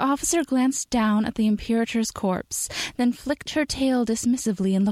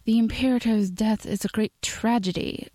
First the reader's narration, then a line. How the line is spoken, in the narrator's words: she said, and even through the lisp and accent, Steve could hear the lack of sincerity